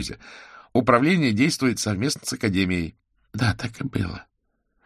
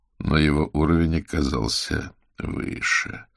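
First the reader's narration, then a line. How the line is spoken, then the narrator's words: Thoughtful drawl. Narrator (Russian): задумчиво протянул Аверин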